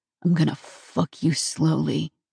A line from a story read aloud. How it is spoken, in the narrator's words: breathed in my ear